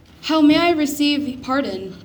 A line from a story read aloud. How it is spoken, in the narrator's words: begged the repentant thief